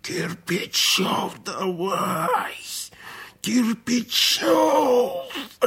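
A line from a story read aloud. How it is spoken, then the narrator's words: Hoarse roaring. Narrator (Russian): ревел, хрипя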